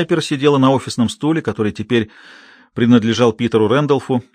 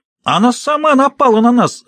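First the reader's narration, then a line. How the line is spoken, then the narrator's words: Shrill squeal. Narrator (Russian): взвизгнула Джорджия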